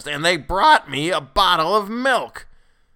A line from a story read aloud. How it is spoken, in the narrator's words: his voice rose to a shrill note of protest